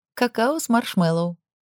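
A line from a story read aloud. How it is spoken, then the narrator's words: Giggling. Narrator (Russian): произнесла я и снова хихикнула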